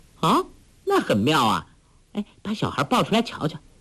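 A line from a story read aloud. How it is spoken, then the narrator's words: Laughing. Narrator (Chinese): 黄蓉笑道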